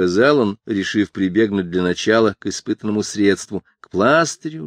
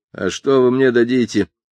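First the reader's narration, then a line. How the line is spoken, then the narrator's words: Grumbling. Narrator (Russian): проворчала Эстер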